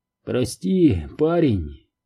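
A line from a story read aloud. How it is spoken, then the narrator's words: Hoarse. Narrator (Russian): хрипло проговорил он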